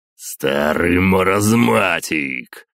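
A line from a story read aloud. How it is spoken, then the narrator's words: Growling. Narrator (Russian): прорычал Зевс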